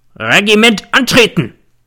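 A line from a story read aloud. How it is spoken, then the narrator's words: Bellowing like an old stag. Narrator (German): Der Feldwebel brüllte wie ein alter Hirsch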